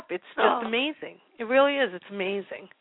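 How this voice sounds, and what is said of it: Choked-up emotional voice. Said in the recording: “I'm getting choked up.”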